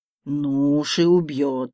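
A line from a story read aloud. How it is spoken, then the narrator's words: Giant's drawl. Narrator (Russian): протянул гигант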